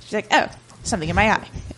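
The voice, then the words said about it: Quick, clipped Queen Elizabeth impression. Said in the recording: “my impression of Queen Elizabeth. She talks quickly and is very clipped.”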